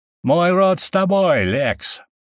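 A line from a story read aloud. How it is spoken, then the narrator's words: Shout. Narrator (Russian): выкрикнул Никатор, глава одного из сильнейших родов племени медведей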